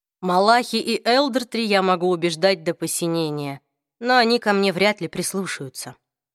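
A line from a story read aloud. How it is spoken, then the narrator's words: Tired. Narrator (Russian): устало объяснил Люк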